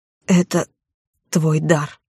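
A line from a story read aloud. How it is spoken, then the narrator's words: Quiet. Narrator (Russian): негромко произнес он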